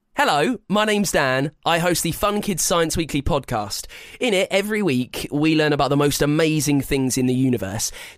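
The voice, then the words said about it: British accent. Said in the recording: “a delightful British accent”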